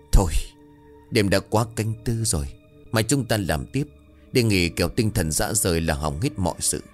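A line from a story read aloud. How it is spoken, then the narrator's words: Stern, emphatic. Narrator (Vietnamese): gằn giọng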